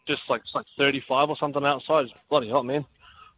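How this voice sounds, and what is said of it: Slight New Zealand accent. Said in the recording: “Is that a Kiwi accent? ... I just kind of adopt their accent when I work with them, eh? ... You got a little bit of a Kiwi accent.”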